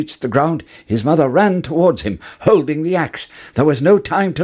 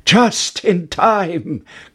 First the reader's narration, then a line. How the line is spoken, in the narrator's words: cried Jack